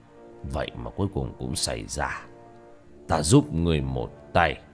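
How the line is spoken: Shaken old man muttering. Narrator (Vietnamese): lão biến sắc, lẩm bẩm

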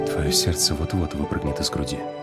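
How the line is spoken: Whispered against lips. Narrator (Russian): прошептал Вит мне в губы

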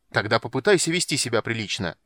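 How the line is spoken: Barking. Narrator (Russian): рявкнул Полин

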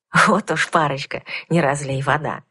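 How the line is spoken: Soft chuckling whisper. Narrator (Russian): тихим посмеивающимся шепотом сообщил маг

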